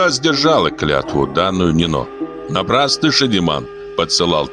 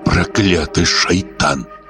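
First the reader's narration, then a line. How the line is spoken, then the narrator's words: Whisper. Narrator (Russian): прошептала Зугза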